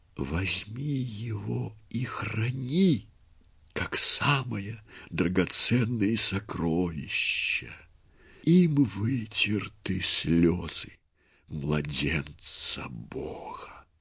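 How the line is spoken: Weakening whisper. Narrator (Russian): слабеющим голосом прошептала

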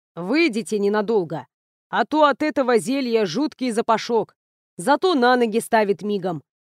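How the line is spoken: Deep bass voice. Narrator (Russian): пробасил Эйнар

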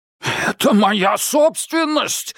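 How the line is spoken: Angry bark. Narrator (Russian): рявкнул коротышка-историк

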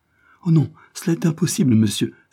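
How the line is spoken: Exclaiming. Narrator (French): s'écria Joyce

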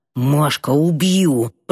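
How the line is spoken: Hiss. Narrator (Russian): прошипел

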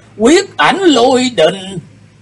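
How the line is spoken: Old man's startled exclamation. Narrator (Vietnamese): Lão nhân bất giác kêu lên

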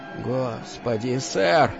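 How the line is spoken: Weak, breathless. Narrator (Russian): слабо выдохнул Кел

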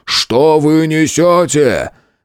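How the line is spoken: Shouting. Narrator (Russian): закричал

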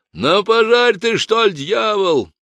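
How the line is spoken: Barking, huge drunken brawler. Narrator (Russian): рявкнул на сторожа, вскочивший с нар во весь свой огромный рост Сашка, атаман казармы, буян и пьяница

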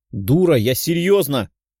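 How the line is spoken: Barked. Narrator (Russian): рявкнула Лиза

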